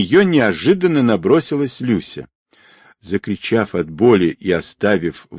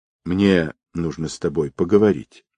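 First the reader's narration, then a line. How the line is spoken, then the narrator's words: Languid quiet voice. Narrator (Russian): томно обратилась она … негромко сказала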